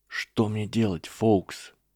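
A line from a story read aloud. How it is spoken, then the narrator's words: Whisper. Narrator (Russian): прошептал Гарри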